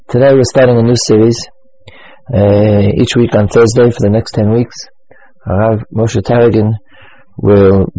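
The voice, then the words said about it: Weak, strained voice. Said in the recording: “As you can hear from my voice, it's really winter here ... the continual loss of voice. Once again, I'm coming down with a cold. I hope you can all hear me.”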